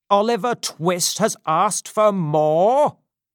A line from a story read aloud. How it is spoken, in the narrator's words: shouted Mr